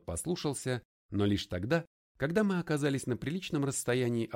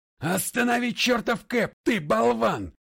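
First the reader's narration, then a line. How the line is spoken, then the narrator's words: Howling at full strength. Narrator (Russian): Взвыл я со всей мочи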